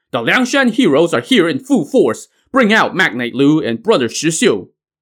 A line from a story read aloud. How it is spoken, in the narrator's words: the chieftain Zhou Yuan and Zhou Ren, shouting